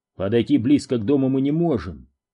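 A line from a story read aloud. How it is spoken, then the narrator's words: Plain. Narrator (Russian): сказал Дью Филлипс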